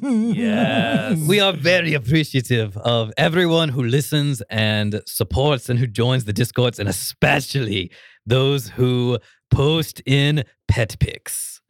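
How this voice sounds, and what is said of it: Put-on Russian accent. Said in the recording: “Can you do the Russian accent? ... the thank you for listening to season one in the Russian accent.”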